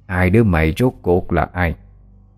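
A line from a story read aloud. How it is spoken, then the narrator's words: Harsh old ghostly woman. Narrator (Vietnamese): hồn ma bà lão gằn giọng nói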